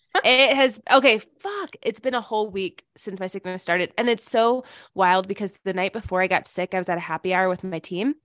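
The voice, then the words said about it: Raspy voice from illness. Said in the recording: “as you can still hear in my voice, it's still a little raspy and weird”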